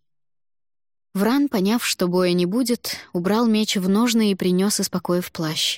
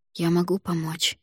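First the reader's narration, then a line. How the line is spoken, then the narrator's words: Whispered question. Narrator (Russian): спросила я шепотом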